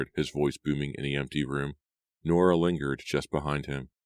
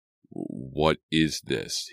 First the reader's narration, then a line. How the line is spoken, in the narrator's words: stammered